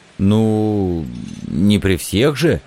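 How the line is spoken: Hoarse squeak. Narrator (Russian): осипшим голосом пискнул я

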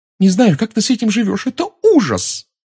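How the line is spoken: Blurted out. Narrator (Russian): выпалила она

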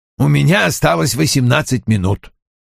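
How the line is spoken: Curt, clipped speech. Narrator (Russian): отрывисто произнес он

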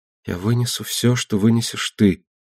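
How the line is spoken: Whisper. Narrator (Russian): прошептал Астер на мои упреки

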